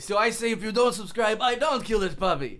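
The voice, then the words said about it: Put-on Iraqi accent. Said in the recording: “Iraqi accent... Iraqi accent.”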